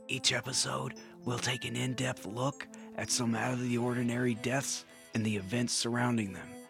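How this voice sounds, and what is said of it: Soft whispery ASMR voice. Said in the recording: “in an ASMR voice so I can lull you into a false sense of quiet security”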